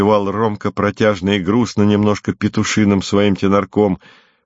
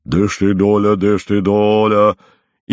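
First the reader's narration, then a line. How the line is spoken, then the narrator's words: Thick scolding voice. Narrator (Russian): он ругает кого-то своим толстым голосом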